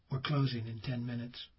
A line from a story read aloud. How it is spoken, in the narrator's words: A young man said softly